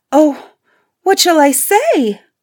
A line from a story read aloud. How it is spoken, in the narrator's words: cried Beauty, for she was afraid to make the beast angry by refusing